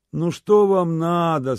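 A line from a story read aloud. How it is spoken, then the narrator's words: Sleepy. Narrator (Russian): сонно отзывался Ваня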